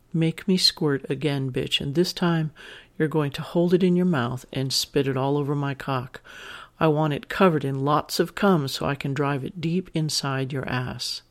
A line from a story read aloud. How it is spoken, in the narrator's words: I whisper harshly